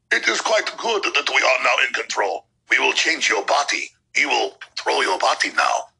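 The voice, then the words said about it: Poor German accent, villain voice. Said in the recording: “that's not a very good German accent ... it's a Bond villain voice ... is that Russian? Is that German? Is that French?”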